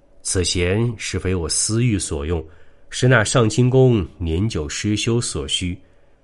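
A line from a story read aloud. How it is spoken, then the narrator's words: Calm, flat. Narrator (Chinese): 李道士淡淡的说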